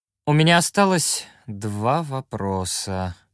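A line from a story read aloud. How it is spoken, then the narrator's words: Sad drawl. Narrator (Russian): грустно протянул Энделион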